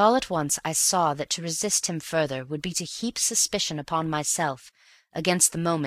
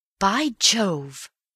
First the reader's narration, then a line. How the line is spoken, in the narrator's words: I cried next instant